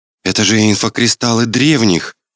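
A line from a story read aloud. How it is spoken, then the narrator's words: Amazed exclamation. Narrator (Russian): воскликнула Гела, пораженно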